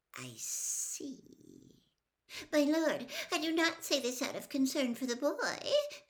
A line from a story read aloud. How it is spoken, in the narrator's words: said Wormtail, his voice rising squeakily